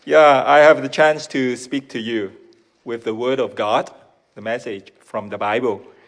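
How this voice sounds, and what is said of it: Hong Kong accented English. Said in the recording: “my Hong Kongish accent”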